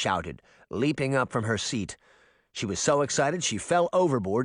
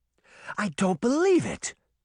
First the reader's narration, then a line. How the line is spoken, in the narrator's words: Daphne gasped